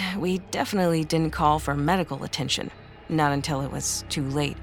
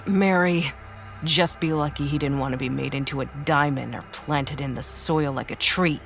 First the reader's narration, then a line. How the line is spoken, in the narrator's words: she snapped